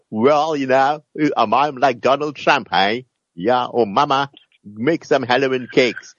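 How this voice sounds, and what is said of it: Put-on American accent. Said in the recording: “those of our people that went to America are suddenly they change the accent”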